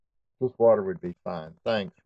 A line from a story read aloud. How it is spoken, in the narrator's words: replied Gabe